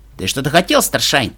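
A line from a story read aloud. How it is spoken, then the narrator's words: Irritated interruption. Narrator (Russian): раздраженно перебил его Эпплджек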